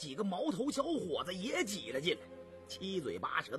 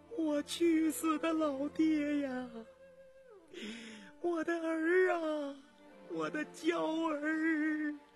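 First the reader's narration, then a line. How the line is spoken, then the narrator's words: Wretched wailing. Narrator (Chinese): 凄惨的哭声盈庭回旋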